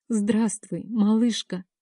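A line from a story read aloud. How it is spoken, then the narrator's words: Tearful reply. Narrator (Russian): сквозь слезы ответила я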